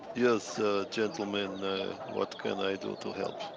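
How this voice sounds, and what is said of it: Attempted Balkan accent. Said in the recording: “that was my attempt at some kind of ... Balkan ... accent”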